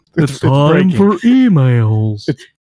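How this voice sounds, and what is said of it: Announcer voice. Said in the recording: “That's my new announcer voice.”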